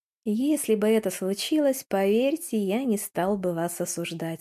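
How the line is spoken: Plain. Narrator (Russian): ответил Монти

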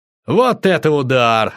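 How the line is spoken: Joyful shout. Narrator (Russian): радостно крикнул я

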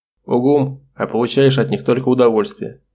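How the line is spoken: Amused snort. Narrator (Russian): тоже хмыкнул Олег

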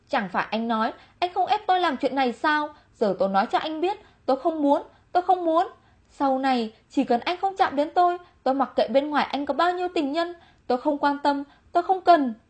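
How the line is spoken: Furious loud shout. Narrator (Vietnamese): Chu Thiến giận dữ khôn cùng, trừng mắt quát lớn

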